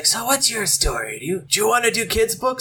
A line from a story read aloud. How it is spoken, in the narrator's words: He had this raspy voice, and he's like